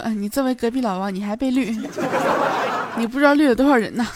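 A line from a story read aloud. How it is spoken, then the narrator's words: Chuckling. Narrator (Chinese): 虎哥当时就呵呵一笑，说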